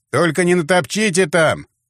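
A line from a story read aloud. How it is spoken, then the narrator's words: Shouting. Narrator (Russian): крикнул криминалист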